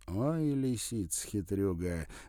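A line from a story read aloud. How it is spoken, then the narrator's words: Laughing. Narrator (Russian): рассмеялся Вадим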